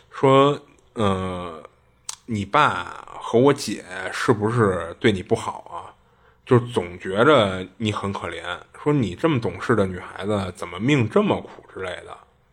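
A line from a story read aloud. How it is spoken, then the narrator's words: Slow, heart-to-heart question. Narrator (Chinese): 他舅慢慢的呢就开始跟他谈心，就问他说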